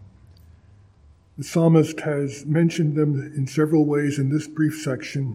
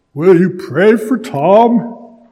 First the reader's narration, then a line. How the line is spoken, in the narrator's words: He pleaded